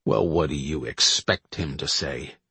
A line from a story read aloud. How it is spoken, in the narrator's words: Hill grumbled